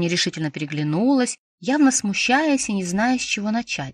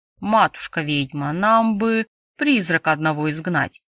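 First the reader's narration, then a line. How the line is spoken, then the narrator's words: Low booming male voice. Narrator (Russian): прогудел низким голосом тот, кто был чуть старше и массивнее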